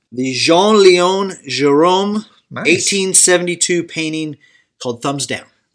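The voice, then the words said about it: Put-on French accent. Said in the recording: “My French accent.”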